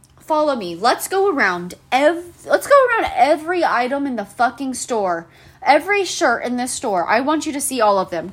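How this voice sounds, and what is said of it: Yelling. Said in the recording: “I feel like I'm yelling”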